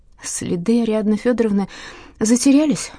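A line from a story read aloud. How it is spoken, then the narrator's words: Sighing. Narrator (Russian): вздохнула Маша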